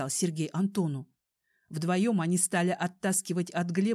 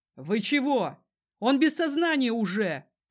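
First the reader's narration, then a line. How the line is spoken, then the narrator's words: Shouted. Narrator (Russian): крикнул Сергей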